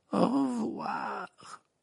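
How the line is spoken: Sinister voice. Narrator (French): répondit Mimi d'une voix sinistre

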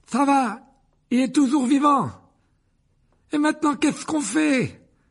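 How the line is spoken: Desperate tone. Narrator (French): ajouta-t-il d'un ton désespéré

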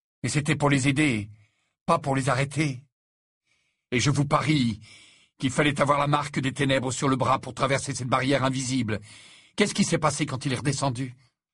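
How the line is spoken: Fierce. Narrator (French): dit Harry d'un ton féroce

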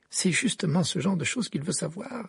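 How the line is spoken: Grave retort. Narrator (French): répliqua Hermione d'un ton grave

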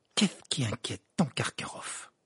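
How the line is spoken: Murmured. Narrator (French): murmura Ron

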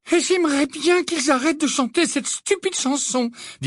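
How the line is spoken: Distressed tone. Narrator (French): dit Hermione d'un ton affligé

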